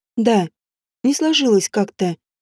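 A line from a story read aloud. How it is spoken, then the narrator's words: Sad. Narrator (Russian): грустно проговорила она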